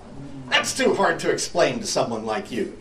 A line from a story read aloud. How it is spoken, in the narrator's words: snapped